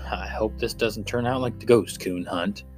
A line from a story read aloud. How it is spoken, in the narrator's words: him mutter